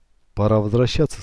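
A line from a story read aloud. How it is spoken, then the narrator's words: Plain. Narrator (Russian): сказал он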